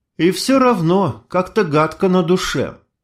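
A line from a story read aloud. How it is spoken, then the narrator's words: Sigh. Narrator (Russian): вздохнула Майя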